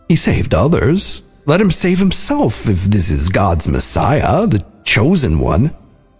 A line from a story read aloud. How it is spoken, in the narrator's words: the leaders were scoffing